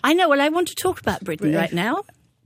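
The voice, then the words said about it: British English accent. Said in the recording (French): “That's so British. ... What a beautiful accent you have. ... T'as un magnifique accent en anglais. Écoute, c'est vraiment beau.”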